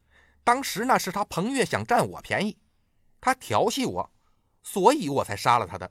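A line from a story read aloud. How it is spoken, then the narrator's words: Hasty shout. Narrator (Chinese): 吕雉……赶紧喊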